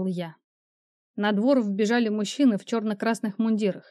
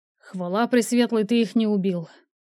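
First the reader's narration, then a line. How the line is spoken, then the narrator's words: Relieved exhale. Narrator (Russian): выдохнул он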